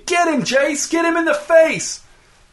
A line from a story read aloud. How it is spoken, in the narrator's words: he started screaming